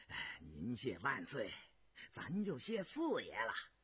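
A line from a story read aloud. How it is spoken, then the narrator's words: Broad grin. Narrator (Chinese): 鄂伦岱笑得咧着嘴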